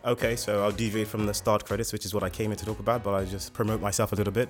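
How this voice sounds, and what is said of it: Slight British accent. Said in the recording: “you have a little British accent there ... I've got a bit of a British accent”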